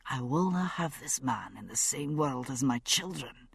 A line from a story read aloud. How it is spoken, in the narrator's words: he said, still softly